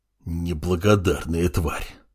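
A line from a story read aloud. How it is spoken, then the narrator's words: Through gritted teeth. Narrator (Russian): произнес Бруно сквозь зубы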